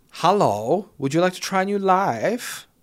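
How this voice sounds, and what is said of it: Camp voice with odd German-sounding accent. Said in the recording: “that's not a Chinese accent, that's just a camp guy ... I don't know why it's German”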